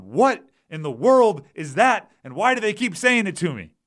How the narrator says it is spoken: yelled at them

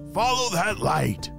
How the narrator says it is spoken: the iguana yelled

